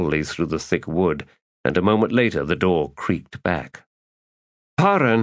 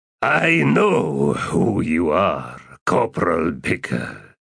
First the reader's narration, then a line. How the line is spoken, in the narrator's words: the Lich replied in a deep, resonant voice